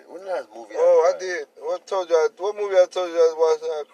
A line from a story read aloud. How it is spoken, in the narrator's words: I cried